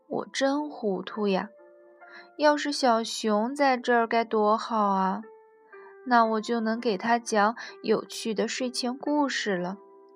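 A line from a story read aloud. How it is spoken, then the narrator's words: Sighing. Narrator (Chinese): 小兔子叹了口气说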